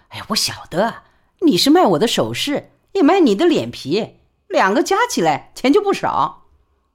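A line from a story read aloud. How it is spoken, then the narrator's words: Laughing. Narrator (Chinese): 李宝莉便笑说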